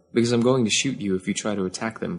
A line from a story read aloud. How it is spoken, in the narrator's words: Kaz said calmly